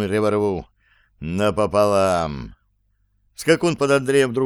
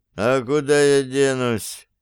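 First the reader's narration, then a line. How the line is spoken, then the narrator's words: Groaning. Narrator (Russian): простонал Зверев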